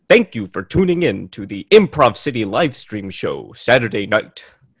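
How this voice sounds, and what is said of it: Showy announcer voice. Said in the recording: “I've been practicing my announcer voice ... put on the announcer voice”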